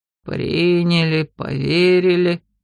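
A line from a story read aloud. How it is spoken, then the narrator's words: Grumbling dragon mutter. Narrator (Russian): ворчливо буркнул дракон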